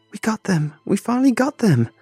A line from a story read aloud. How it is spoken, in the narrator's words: she squealed like a little girl at a theme park